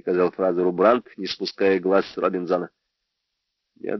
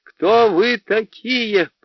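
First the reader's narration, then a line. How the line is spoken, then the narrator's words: Piercing scream. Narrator (Russian): пронзительно закричала она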